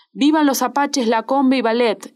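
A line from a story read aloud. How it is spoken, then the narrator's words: Exclaimed. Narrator (Spanish): exclamé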